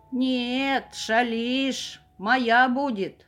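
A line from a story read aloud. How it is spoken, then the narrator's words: Wolf growling. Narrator (Russian): зарычал волк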